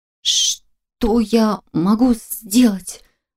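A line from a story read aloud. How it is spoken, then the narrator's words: Stammering whisper. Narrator (Russian): Заикаясь даже сильнее, чем во время разговора с Фолкнером, прошептала я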